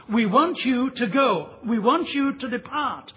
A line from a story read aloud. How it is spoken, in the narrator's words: the people plead